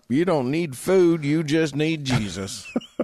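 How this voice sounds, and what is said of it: Put-on accent. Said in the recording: “That's the wrong accent for this story... But also the right accent”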